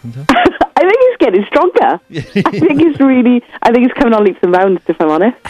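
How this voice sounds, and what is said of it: Strong Australian accent. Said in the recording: “you've got your Aussie ochre accent on ... your Australian accent hasn't improved”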